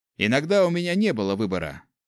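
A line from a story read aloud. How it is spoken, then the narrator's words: Dry snort. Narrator (Russian): хмыкнул Гюш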